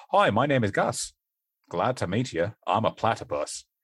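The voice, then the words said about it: Attempted Australian accent. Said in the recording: “Will you try an Australian accent? ... that's still Australian a little bit ... that doesn't sound Irish at all ... that was me attempting to do an Australian”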